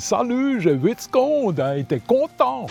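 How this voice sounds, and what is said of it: Put-on Swiss French accent. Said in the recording (French): “accent suisse ... C'était l'accent des moniteurs de ski et des gens qui s'occupaient de nous, enfants. Cette espèce de personnage un peu hilar.”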